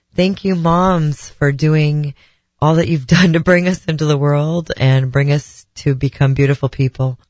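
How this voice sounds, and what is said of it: Voice sounds slightly different, stuffy. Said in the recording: “my voice may sound a little bit different, and that is because of allergy season”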